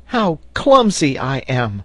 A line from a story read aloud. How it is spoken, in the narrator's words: cried Herbert